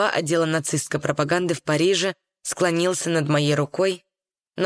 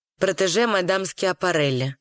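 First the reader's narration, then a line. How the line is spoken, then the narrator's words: Cold. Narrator (Russian): холодно сказал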